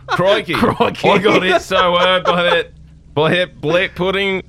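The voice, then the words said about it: Put-on Australian accent. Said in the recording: “I'm now Australian ... I've changed my accent.”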